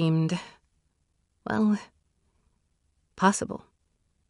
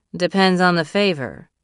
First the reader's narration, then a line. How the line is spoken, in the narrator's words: she said in a flat voice